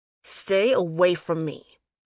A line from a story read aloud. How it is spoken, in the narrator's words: I growled at her